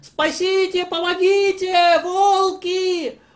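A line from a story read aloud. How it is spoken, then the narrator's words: Very loud shout. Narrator (Russian): Он закричал громким-громким голосом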